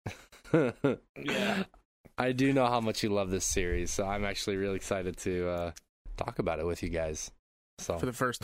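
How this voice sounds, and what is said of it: Sniffly, congested, down voice. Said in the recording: “I have contracted a cold, so I might be a little bit more sniffly than usual. I might cough here and there. ... My voice is probably sounding a little bit like down and out.”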